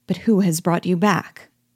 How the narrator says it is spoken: as if suddenly recollecting himself, at last he exclaimed

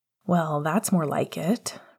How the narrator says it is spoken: Remus sighed

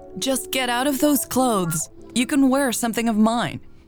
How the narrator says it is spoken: Hannah yelled from the hallway leading to her bedroom

